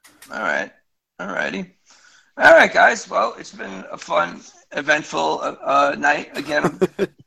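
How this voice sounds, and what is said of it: Worn, partly lost voice. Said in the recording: “sorry about my voice. Hopefully, I get it back tomorrow.”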